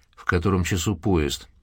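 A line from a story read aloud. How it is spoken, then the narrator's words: Calm and even. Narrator (Russian): Голос прозвучал спокойно и ровно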